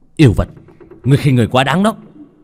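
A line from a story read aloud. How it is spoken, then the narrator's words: Angry through gritted teeth. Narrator (Vietnamese): Lô Tiểu Bắc nghiến răng giận dữ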